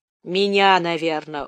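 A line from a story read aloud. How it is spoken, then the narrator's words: Dejected. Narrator (Russian): уныло сказал Шура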